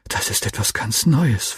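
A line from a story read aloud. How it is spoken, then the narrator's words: Whispering. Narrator (German): flüsterte ich meinem Freund zu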